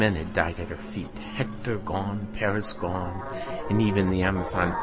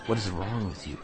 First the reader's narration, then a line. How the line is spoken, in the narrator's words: Helen said